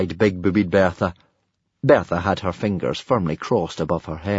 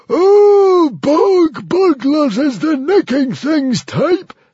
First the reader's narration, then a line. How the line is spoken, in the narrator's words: screeched the hairy, scary librarian